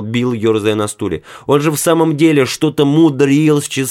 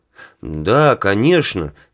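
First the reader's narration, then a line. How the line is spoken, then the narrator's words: Miserable mumble. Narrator (Russian): с несчастным видом промямлил Билл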